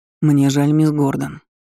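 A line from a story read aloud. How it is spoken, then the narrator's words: Even, level voice. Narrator (Russian): ровным голосом произнес магистр Варшайлен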